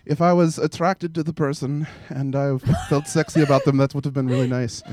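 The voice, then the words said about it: Put-on German accent. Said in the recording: “I don't know if that's a German accent ... close ... It was good.”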